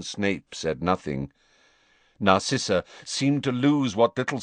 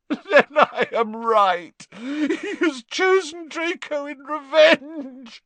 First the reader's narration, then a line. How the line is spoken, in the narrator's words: choked Narcissa